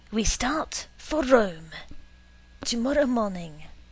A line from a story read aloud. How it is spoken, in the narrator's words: said dramatically